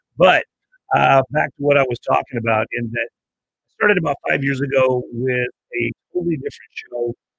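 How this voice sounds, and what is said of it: Hoarse, rough voice. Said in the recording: “my voice is a little coarse. Normally, I sound a lot better than this.”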